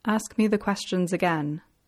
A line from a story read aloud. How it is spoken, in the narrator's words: Fitzroy said softly